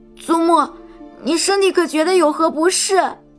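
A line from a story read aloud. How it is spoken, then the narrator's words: Crying, nervous. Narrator (Chinese): 哭着，紧张的问道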